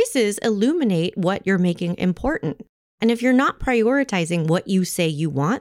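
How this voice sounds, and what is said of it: Usual voice. Nothing is said of it.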